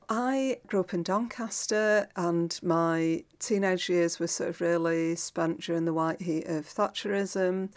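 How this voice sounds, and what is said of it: Regional English accent. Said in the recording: “People might be able to tell from your accent that you're from the same neck of the woods as me”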